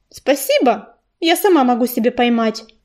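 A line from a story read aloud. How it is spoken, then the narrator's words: Dry, curt. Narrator (Russian): сухо ответила рыженькая кошка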